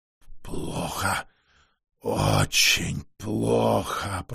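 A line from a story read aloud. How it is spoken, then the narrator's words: Hoarse, magically altered voice. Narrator (Russian): прохрипел чародей прежним голосом, странно измененным чарами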